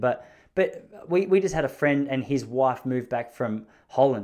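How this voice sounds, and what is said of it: Australian accent. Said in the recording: “when I tell people I'm from Australia, I think based on my accent ... it's probably not a surprise to them”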